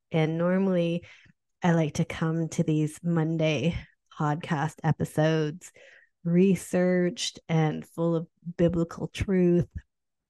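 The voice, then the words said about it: Sick-sounding voice. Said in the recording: “this sick edition ... I am your sick host ... sorry about my voice. I have been so sick the last few days”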